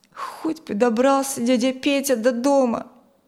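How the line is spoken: Sad sigh. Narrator (Russian): Печально вздохнул Коля

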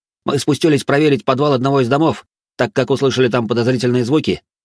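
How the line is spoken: Rapid chatter, warrior. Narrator (Russian): начал тараторить один из воинов

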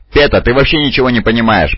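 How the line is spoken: Grumbling. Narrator (Russian): проворчал грамматикус

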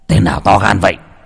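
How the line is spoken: Startled shout. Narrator (Vietnamese): Trần lão gia giật mình quát lên

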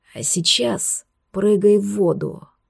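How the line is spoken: Rustling male whisper. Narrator (Russian): Будто не мужской шепот прошелестел над ухом, а внутренний голос сказал эти слова

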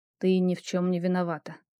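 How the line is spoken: Quiet mutter. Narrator (Russian): тихо пробормотал он

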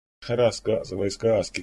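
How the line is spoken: Short laugh. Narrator (Russian): коротко рассмеялся Саид

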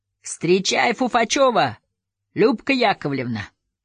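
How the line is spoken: Shout. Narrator (Russian): Милиционер крикнул

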